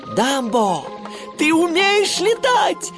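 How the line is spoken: Joyful shout. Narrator (Russian): радостно крикнул Тимоти

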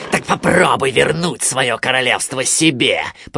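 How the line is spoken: Growling. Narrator (Russian): прорычал он

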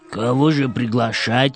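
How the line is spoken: Hoarse question. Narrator (Russian): спросил ночной ворон хрипло

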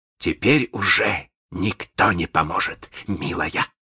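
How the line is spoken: Gloating hiss. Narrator (Russian): злорадно прошипел Малинс

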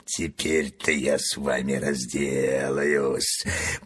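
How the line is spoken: Hissed through clenched teeth. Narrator (Russian): прошипел он сквозь стиснутые зубы

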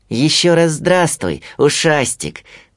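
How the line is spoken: Cheerful shout. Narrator (Russian): крикнул Винни

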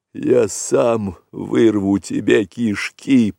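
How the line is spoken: Hoarse rasp. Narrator (Russian): прохрипел вожак

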